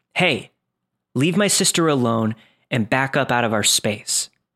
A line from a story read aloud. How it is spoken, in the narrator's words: said firmly